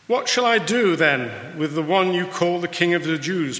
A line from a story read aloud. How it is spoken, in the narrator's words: Pilate asked them